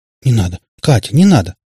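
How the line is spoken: Hurried babbling. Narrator (Russian): торопливо залепетала Наташка

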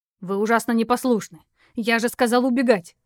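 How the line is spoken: Harsh bark. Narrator (Russian): рявкнул он

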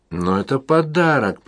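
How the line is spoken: Moaning. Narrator (Russian): простонала Джудит

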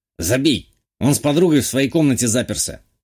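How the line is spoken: Snorting. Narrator (Russian): хмыкнул сосед

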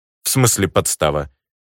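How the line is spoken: Irritated croak over phone. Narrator (Russian): в телефоне раздраженно квакнуло

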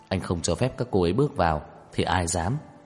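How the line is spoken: Soft, moved, smiling. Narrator (Vietnamese): xúc động, mỉm cười nhỏ giọng nói

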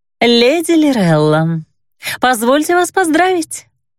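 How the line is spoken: Cooing in unison. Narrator (Russian): дружно проворковали

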